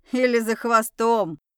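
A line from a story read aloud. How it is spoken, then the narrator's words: Loud laughter. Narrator (Russian): громко рассмеялась Тайра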